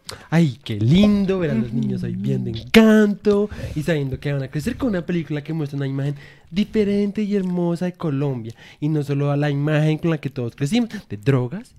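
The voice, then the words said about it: Exaggerated gushing aunt voice. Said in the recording (Spanish): “poner voz de tía. Desatada. ... Es como... Como hablan mis tías”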